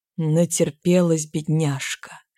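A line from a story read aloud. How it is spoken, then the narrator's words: Cooed. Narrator (Russian): проворковал Кандашов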